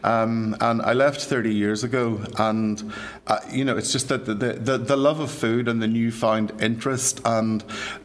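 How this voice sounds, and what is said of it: Irish accent. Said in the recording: “I'm sure you can tell by my accent, I'm from these shores”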